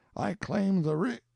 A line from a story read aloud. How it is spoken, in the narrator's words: exclaimed joyfully